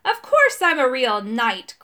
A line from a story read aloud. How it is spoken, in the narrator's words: cried the rusty knight